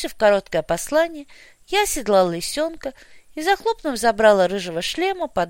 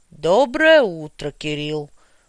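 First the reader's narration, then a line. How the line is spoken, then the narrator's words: Booming voice. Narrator (Russian): прогудел боярин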